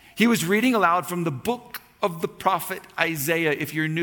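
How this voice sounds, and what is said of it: Usual voice. Nothing is said of it.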